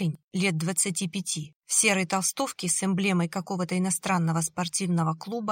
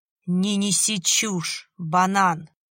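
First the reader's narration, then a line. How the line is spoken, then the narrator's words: Hissing. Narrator (Russian): прошипел вездесущий Гена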